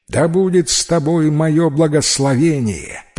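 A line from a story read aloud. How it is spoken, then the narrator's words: Shouting from above, hawk king. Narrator (Russian): прокричит с высоты ястребиный король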